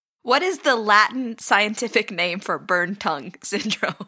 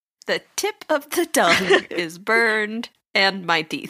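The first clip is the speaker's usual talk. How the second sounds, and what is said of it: Garbled, mumbled burned-tongue speech. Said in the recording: “you do an impression of how I just sounded with my burned tongue ... Gobbledygook”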